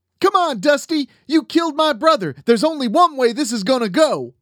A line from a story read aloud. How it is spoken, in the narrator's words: Johnny screamed from Addie's gas station across the street